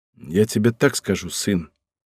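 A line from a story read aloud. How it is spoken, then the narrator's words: Somewhat gloomy reply. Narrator (Russian): ответил он немного мрачно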